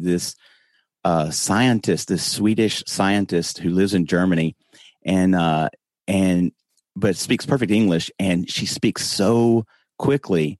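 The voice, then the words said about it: Slow Southern US accent. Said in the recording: “I talked the slowest ... I'm from the South. I try not to talk like this, but you know, I do have a Southern accent ... I speak so slowly”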